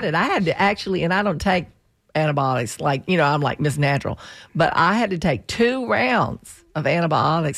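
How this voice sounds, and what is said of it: Weird, hoarse voice from bronchitis. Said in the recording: “my voice is a little weird, right? I still have bronchitis”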